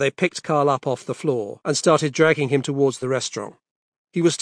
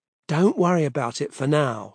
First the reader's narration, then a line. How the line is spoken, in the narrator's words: said Cassie in a soothing voice